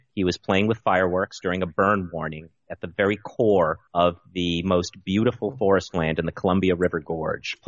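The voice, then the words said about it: Slightly hoarse voice. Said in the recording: “if I sound a little bit hoarse, it's because all of us have been choking on wood smoke”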